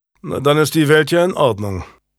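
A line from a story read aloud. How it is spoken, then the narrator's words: Dry remark. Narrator (German): bemerkte Julian trocken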